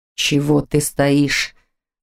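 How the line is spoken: Rough, animal-like growl. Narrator (Russian): Голос плохо его слушался и оттого звучал грубо, как звериный рык

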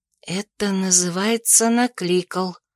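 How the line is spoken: Breathed into ear. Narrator (Russian): выдохнула я Нейлзу в ухо

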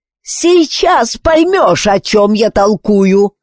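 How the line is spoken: Yelling huge doll. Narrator (Russian): заорала широченная кукла

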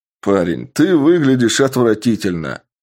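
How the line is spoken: Mocking laugh. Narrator (Russian): рассмеялся один из бойцов

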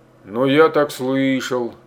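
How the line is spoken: Defensive grumbling. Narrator (Russian): словно бы оправдываясь, заворчал Рукосуев

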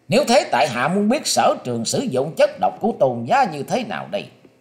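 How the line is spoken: Loud shout. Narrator (Vietnamese): Lữ Tùng Lâm đã quát to lên rằng

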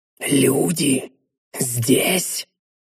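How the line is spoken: Astonished whisper. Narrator (Russian): пораженно прошептал Квинтес, не боясь быть услышанным

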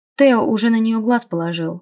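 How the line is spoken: Snort. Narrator (Russian): хмыкнул Джо

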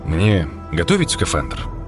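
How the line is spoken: Plain. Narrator (Russian): спросил Блум

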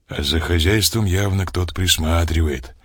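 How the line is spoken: Quiet. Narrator (Russian): тихо сказал Олег

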